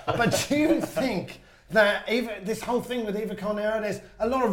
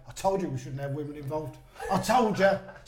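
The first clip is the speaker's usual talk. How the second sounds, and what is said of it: Put-on Cockney accent. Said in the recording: “the Cockney accent, and I'm allowed to do that. I'm allowed to do that because I'm from here.”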